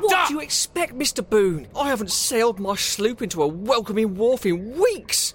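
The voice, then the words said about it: Raised, frustrated shouting voice. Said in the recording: “raise my voice”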